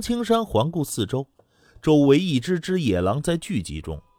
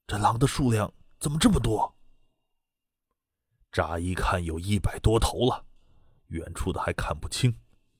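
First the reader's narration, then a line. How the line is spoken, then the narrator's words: Low voice. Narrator (Chinese): 滕青虎低声道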